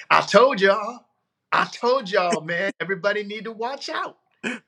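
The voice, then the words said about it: Imitates another person's voice. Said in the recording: “impersonate them like that? ... That's pretty good. ... impersonation gift”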